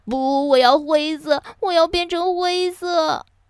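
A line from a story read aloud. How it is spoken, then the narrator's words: Loud wailing sobs. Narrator (Chinese): 哈瓦尔嚎啕大哭了起来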